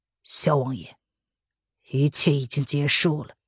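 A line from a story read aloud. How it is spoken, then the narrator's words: Low laugh. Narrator (Chinese): 萧白不由得低声笑了出来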